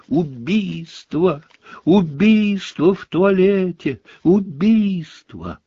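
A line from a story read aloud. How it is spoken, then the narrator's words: Shrill scream. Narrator (Russian): Плакса Миртл истошно завопила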